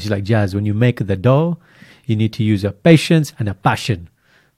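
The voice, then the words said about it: Put-on foreign accent. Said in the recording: “She doesn't have this accent”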